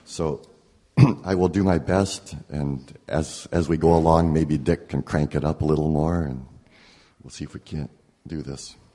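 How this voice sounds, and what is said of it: Hoarse, slightly distorted voice. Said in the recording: “I woke up at 5 this morning with a bad sore throat, and as you may be able to tell, my voice is a little distorted this morning”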